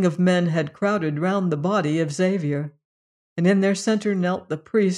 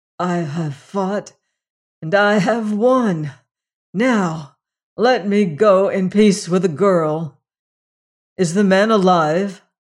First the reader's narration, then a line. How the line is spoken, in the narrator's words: gasped Leonard